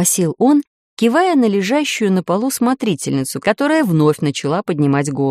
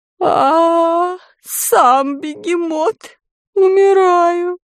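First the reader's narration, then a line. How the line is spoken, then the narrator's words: Moaning, fainting. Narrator (Russian): Простонала та, падая в новый обморок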